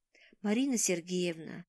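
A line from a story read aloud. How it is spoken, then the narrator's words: Sigh. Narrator (Russian): вздохнул он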